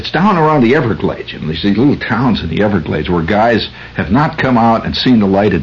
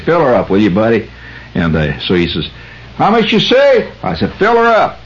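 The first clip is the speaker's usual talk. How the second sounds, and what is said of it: Put-on Southern US accent. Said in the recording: “when I get down below the Mason-Dixon line, I turn on my Mason-Dixon below the line accent”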